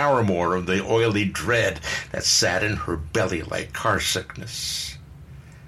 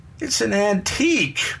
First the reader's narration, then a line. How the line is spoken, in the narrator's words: Bernie whined